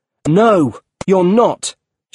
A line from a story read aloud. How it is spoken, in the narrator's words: shouted Peter